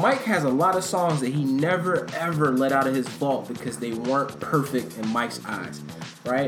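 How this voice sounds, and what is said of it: Usual voice. Nothing is said of it.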